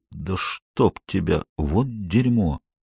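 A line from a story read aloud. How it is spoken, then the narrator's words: Muttering. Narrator (Russian): Боб бормочет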